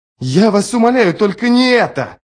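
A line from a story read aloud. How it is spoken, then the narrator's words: Shouting. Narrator (Russian): закричал Ярви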